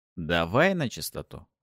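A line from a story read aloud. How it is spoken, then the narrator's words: Wry grunt. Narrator (Russian): хмыкнул я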